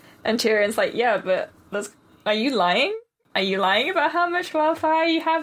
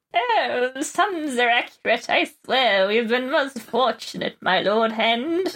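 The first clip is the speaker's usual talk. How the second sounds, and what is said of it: Pyromancer character voice. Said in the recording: “do the pyromancer voice. ... You can't just let him have a regular voice.”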